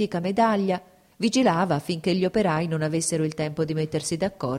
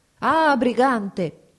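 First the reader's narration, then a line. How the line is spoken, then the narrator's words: Shout. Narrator (Italian): gridò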